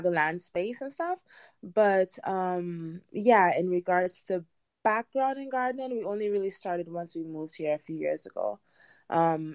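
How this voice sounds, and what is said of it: Caribbean Trinidadian English accent. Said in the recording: “you can probably hear from my accent um i'm not american i'm from the caribbean i'm from trinidad and tobago”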